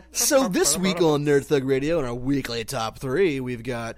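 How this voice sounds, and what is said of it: Exaggerated radio announcer voice. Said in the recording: “is that your radio voice? ... That was terrible.”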